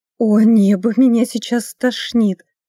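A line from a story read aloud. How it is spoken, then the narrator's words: Moan. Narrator (Russian): простонала Элизабет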